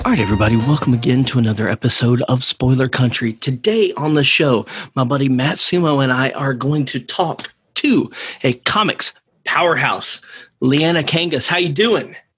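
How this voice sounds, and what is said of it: Polished radio announcer voice. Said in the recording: “I love your radio voice so much ... It's my NPR voice.”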